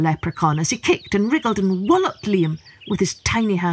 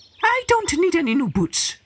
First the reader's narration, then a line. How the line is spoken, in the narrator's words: he snapped